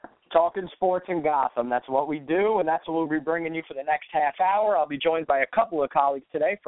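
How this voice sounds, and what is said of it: Usual voice. Nothing is said of it.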